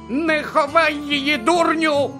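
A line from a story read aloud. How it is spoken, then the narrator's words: Shriek. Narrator (Ukrainian): заверещала місіс Фік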